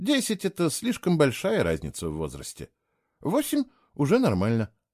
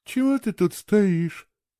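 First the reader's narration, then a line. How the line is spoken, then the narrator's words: Sleepy question. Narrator (Russian): сонно спросила она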